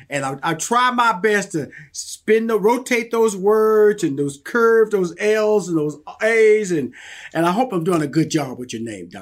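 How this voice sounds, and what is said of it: Southern American accent. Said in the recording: “I'm from Houston, Texas, and I got this Southern accent”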